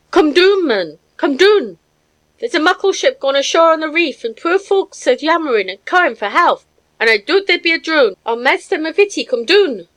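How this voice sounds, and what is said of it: Screaming wheezy old woman's dialect. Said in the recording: “excited cries in the wheezy voice of my housekeeper ... she screamed in her hateful dialect”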